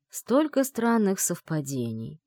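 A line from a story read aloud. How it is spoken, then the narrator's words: Calmer tone. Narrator (Russian): более спокойно произнес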